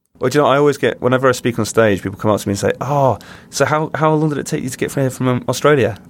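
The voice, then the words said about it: English accent. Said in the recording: “my English accent ... You don't get more English than English ... I'm British”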